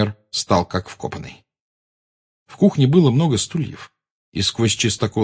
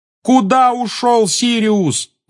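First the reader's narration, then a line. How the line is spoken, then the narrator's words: Yelling. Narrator (Russian): завопил Гарри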